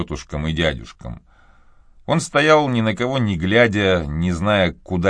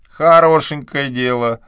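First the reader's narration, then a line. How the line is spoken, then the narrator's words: Loud and distinct. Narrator (Russian): громко и отчетливо произнесла тетушка Глег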